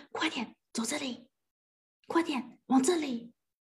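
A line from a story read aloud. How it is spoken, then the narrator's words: Mother speaking softly. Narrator (Chinese): 妈妈小声的说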